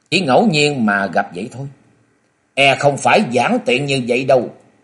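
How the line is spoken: Still cold. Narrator (Vietnamese): Hận Thế Ma Cơ vẫn lạnh lùng

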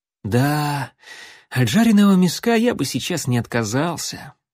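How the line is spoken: Dreamy sigh. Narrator (Russian): мечтательно вздохнул Алан

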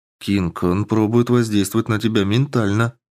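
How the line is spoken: Very calm voice. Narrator (Russian): произнесла Андромеда, голос которой звучал слишком спокойно

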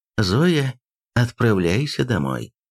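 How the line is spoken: Gentle command. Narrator (Russian): Поп мягко велел

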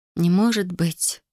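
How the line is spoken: Sigh. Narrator (Russian): вздохнула я

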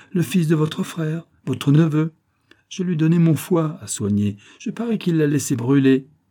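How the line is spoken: Exclaiming. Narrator (French): s'écria

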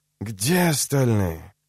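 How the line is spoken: Wheezing. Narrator (Russian): Фургонщик снова захрипел

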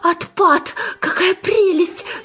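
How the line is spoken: Delighted squeal. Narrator (Russian): завопила Жанна

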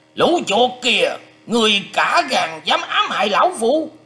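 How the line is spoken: Old man's furious shout. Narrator (Vietnamese): Lão già một mắt quát to lên rằng

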